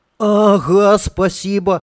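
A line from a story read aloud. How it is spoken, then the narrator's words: Stunned, joyful shout. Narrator (Russian): обалдело, но радостно крикнул ему уже в спину Аркашка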